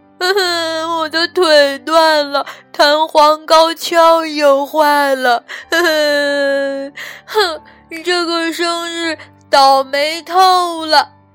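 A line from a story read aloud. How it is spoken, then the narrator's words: Loud shout. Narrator (Chinese): 道格拉斯大叫一声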